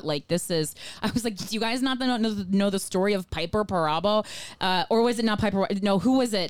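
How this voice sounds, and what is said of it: New Jersey accent. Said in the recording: “I have this New Jersey accent”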